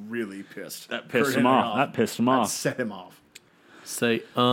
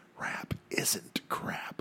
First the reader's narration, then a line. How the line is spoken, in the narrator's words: Van Hammer whispered to him